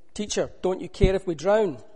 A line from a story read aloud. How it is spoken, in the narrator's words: shouting